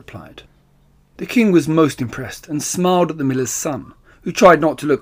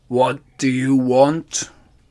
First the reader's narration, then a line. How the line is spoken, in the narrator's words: growled the ogre